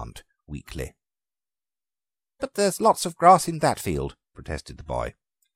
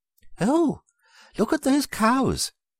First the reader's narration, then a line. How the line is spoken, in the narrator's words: exclaimed the aunt